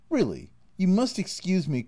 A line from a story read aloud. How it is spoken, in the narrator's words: cried